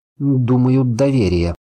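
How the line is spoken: Uncertain reply. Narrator (Russian): ответил я неуверенно

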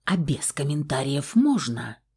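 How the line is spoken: Hiss. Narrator (Russian): Прошипела я

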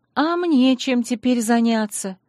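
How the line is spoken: Impatient sigh. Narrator (Russian): вздохнула я скорее от нетерпения, чем от растерянности

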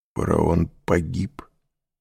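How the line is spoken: Strangled-voice question. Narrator (Russian): спросил Морель сдавленным голосом

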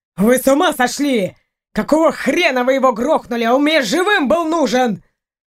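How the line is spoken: Furious yelling. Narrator (Russian): И без того злой следователь заорал дурниной

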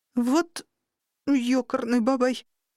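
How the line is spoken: Terrified gasp. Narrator (Russian): в ужасе выдохнула я

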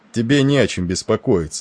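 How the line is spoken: Cheerful booming. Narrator (Russian): гудел он весело

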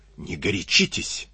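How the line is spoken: Whisper. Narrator (Russian): шепнул ему Клюгинау

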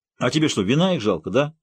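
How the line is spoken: Sudden snapping retort. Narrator (Russian): неожиданно огрызнулся Иван Никитич

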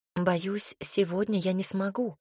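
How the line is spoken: Quiet. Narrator (Russian): ответила тихо

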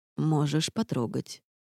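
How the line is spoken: Quiet permission. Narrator (Russian): негромко разрешил Рейнард

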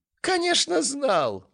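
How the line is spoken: Laughing loudly. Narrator (Russian): расхохотался Кеншин

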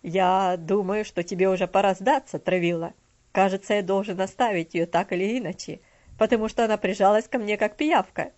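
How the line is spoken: Hearty laughing speech. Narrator (Russian): Мистер Динсмор сердечно рассмеялся и сказал

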